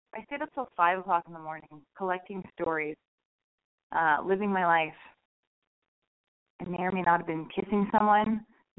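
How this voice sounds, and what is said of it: Hoarse voice. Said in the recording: “my voice is like all hoarse.”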